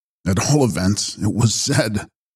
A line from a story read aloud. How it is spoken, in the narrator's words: he laughed